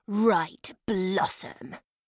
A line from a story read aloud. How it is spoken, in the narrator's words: Clarissa snarled